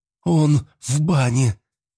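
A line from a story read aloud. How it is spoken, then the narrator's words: Strained, forced out. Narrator (Russian): только и смогла выдавить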